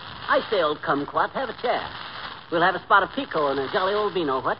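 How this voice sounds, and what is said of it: Put-on upper-class British accent. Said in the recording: “this Bond Street brogue ... a British accent”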